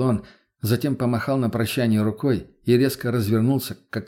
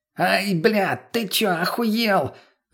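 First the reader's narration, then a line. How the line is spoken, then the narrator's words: Shout drowned by engine. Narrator (Russian): закричал товарищ, но за ревом двигателя его практически не было слышно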